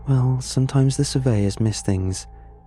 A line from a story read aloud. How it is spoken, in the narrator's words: sighed